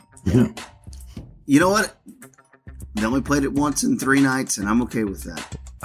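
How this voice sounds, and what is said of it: Slightly strained, compromised voice. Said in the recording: “my voice is a little compromised. I have been on the road traveling.”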